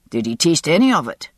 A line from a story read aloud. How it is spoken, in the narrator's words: he asked sharply